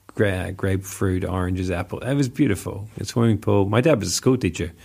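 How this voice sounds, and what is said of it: Mixed New Zealand accent. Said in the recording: “my accent just morphs, to be honest, whenever I talk to people ... Kiwi and Aussie sarcasm”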